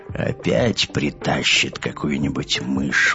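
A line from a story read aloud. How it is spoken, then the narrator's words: Gloomy. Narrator (Russian): мрачно сказал Олф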